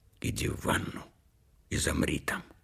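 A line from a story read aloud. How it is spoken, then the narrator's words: Whisper. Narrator (Russian): шепнула она мне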